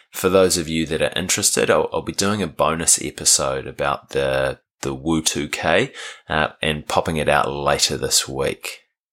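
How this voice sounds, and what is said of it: Croaky voice. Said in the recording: “my voice is a bit croaky today. I ran the Wellington Urban Ultra Marathon yesterday”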